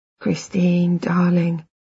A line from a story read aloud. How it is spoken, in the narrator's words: he murmurs